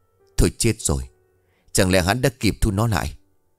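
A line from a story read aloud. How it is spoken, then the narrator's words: Trembling frightened voice. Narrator (Vietnamese): Chị Hoài run rẩy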